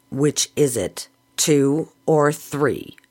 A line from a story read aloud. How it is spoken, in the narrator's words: asked sternly